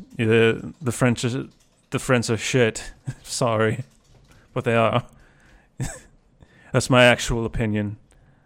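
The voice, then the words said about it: Impersonation of another person's voice. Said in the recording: “impersonation of Stuart”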